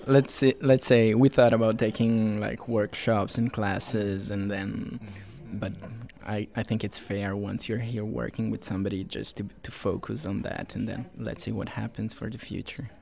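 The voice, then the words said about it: European accent. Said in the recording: “You're giving all this European energy accent”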